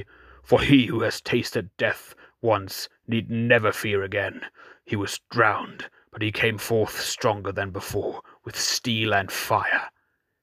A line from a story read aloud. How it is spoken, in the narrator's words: said Aaron fiercely